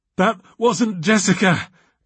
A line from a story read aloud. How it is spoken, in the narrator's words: gasped